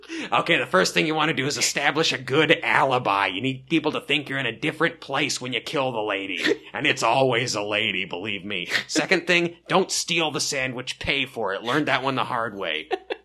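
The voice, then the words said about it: Imitates another person's voice. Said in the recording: “his Robert Durst impression ... That's so spot on.”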